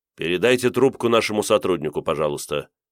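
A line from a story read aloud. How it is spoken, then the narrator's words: Even voice. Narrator (Russian): попросили у меня ровным голосом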